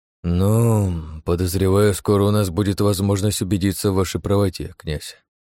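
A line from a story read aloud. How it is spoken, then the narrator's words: Sighing. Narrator (Russian): вздохнул Оболенский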